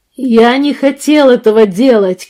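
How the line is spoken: Shouting. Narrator (Russian): кричал Арт

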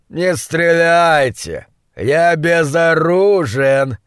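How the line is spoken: Shout with purring undertone. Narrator (Russian): крикнул с обычным своим львиным мурлыканьем в голосе

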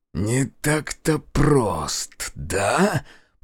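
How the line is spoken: Hissing mage. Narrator (Russian): прошипел маг

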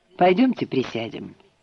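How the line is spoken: Softer tone. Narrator (Russian): сказал уже не таким резким тоном

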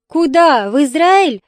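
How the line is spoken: Hysterical laughter. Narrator (Russian): Лида истерично засмеялась

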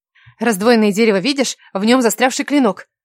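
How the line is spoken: Rapid chatter. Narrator (Russian): затараторила Кира

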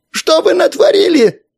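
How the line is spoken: Hysterical yell, uninvited guest. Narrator (Russian): истерично заорал непрошенный гость

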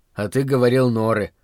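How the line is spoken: Skeptical snort. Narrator (Russian): хмыкнул я

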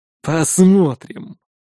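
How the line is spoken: Mercenary's snort. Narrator (Russian): хмыкнул наемник

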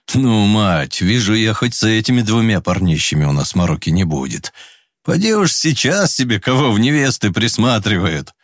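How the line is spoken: Laughing father. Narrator (Russian): рассмеялся отец

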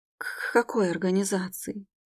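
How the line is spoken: Barely audible stammering mumble. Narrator (Russian): промямлила, заикаясь едва слышно

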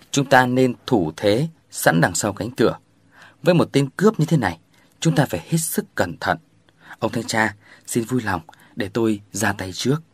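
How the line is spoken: Calm. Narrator (Vietnamese): Hôm nói bằng giọng bình tĩnh

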